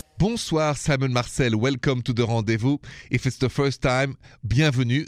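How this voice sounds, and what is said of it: French-accented English. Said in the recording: “This accent is French originally. After even 20 years of English lessons, the accent is still there.”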